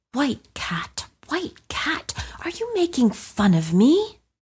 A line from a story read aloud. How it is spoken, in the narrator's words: he himself began to wonder and muttered softly